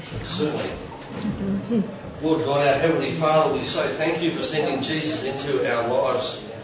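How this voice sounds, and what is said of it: Australian accent. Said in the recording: “we love your Aussie accent, mate”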